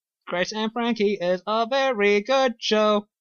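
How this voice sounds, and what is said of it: Sing-song robotic voice. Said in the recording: “That's my singing robot voice.”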